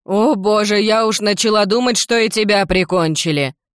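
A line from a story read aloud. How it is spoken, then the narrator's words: Wailing into tears. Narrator (Russian): Взвыла та и разразилась слезами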